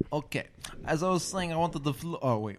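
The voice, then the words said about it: Mock Russian accent. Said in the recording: “Why am I talking the accent? ... we randomly always talk in like a Russian accent ... sound like Marlon Brando doing a Russian accent ... I'm not that good at it”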